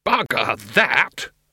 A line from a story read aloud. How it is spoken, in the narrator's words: he roared